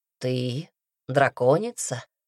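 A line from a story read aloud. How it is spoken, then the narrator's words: Gentle, as to child. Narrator (Russian): ласково, как шаловливому ребенку, объяснил Редрик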